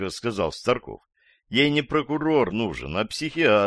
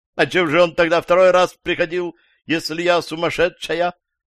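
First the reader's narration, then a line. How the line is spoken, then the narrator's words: Woman's shout. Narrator (Russian): закричала женщина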